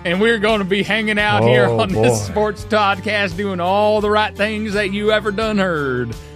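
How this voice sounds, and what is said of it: Put-on Southern accent. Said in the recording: “Why am I talking in a southern accent? ... I'm also doing this kind of accent ... It's getting better, isn't it?”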